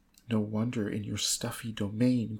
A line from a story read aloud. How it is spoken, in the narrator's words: cried Ethel